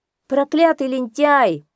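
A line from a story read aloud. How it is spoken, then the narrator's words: Shouting. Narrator (Russian): закричал Микиш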